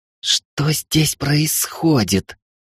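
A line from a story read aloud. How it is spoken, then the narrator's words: Hissing. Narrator (Russian): зашипела на Алекса Машка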